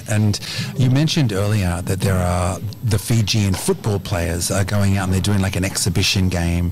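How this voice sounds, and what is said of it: Australian accent. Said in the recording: “I got this Aussie accent now”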